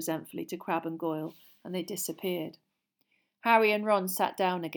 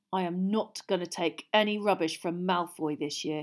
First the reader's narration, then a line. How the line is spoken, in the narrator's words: said angrily